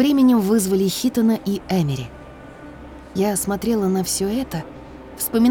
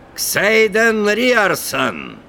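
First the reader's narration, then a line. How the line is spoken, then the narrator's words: Loud announcement. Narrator (Russian): громко объявил комендант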